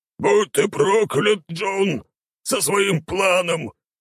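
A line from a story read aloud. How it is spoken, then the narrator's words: Grumbling. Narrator (Russian): проворчал Баги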